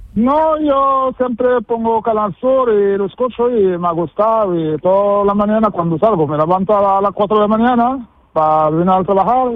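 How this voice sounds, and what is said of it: Moroccan accent speaking Spanish. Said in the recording (Spanish): “parece que has llegado antes de ayer, de Marruecos ... ese acento, poco castellano”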